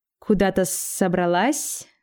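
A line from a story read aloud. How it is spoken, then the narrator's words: Mocking hiss, cold fury. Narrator (Russian): насмешливо прошипела серебряная тварь, но в глазах ее уже медленно разгоралась холодная ярость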